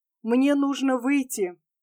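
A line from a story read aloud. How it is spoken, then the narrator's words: Whisper in ear. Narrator (Russian): Тим нагнулся к уху барона и шепнул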